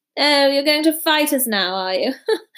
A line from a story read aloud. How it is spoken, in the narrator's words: Malfoy sneered